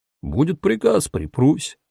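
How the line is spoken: Calm reply. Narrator (Russian): спокойно ответил Тома

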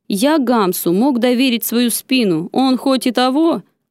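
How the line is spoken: Deep bass voice. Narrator (Russian): Громила, пробасил

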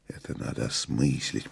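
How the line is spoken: Whispered. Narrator (Russian): прошептал мастер

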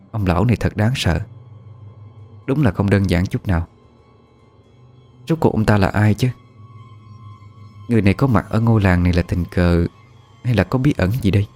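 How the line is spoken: Worried muttering. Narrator (Vietnamese): Cô nhíu mày lẩm bẩm

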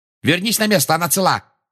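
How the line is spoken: Barked. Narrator (Russian): рявкнула Анджелина

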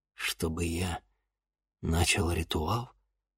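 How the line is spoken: Crushed, dejected voice. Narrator (Russian): убитым голосом произнес Денис

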